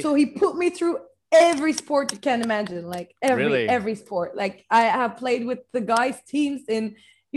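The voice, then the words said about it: Noticeable non-native accent. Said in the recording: “This is the accent trouble again, isn't it?”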